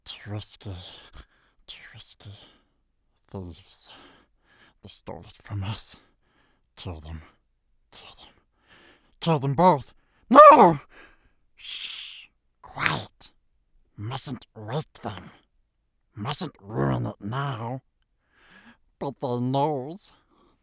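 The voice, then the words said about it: Gollum character voice. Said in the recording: “my Smeagol slash Gollum impression”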